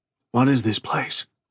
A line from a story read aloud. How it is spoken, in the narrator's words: he whispered